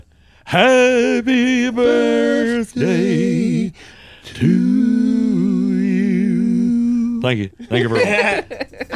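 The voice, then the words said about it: Elvis-style singing impression. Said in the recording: “That was my impression of Jerome Jackson doing Elvis. ... Not bad.”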